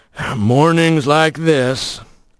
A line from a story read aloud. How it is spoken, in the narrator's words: Rocky rumbled